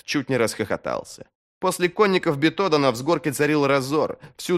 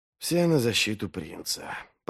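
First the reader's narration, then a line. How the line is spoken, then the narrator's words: Muttered. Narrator (Russian): пробормотал Вест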